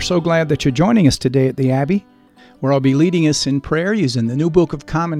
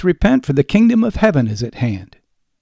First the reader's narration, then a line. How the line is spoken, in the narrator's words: The Baptist cries